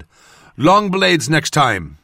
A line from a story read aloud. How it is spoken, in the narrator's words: called out to her